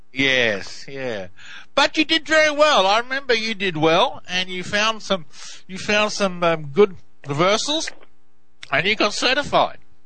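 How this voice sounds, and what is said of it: Australian English accent. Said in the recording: “It took me a while to understand your English. ... my Aussie accent. ... was like Aussie, I had trouble hearing it.”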